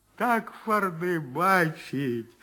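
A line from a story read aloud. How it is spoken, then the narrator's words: Whiny old man. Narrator (Russian): Плаксивым голосом говорил все свое старик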